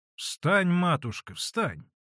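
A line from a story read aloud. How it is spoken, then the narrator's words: Stern, imposing. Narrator (Russian): строго и внушительно молвила ей Манефа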